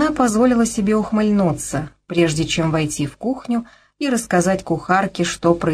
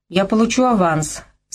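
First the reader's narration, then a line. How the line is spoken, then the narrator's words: With a slight laugh. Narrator (Russian): сказал он, слегка рассмеявшись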